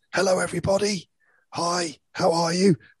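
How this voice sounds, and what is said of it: Weird voice imitating another person. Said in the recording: “had a really weird voice ... kind of spoke like this. You know, I sounded a bit like Miles Davis, the trumpet player who kind of famously spoke like this. I didn't have the American accent as well”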